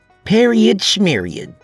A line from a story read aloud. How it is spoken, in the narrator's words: she barked